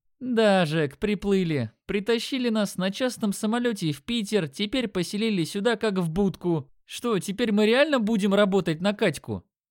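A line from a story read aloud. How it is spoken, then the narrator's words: Indignant snort. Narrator (Russian): Он хмыкнул, но в голосе чувствовалось негодование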